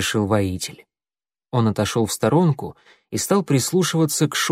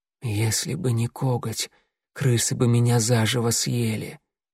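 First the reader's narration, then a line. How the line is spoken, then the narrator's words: Hoarse with pain. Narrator (Russian): проговорила она хриплым от боли голосом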